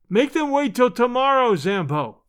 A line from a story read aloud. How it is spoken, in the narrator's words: shouted